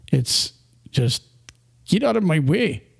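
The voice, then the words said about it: Bad put-on Russian accent. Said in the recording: “That was such a bad accent. ... I'm going to work on my Russian accent”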